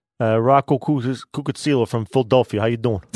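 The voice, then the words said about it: Put-on Philadelphia accent. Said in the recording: “he's doing a perfect accent”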